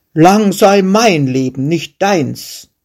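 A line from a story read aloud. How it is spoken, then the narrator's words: Shepherd calling out. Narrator (German): rief der Schäfer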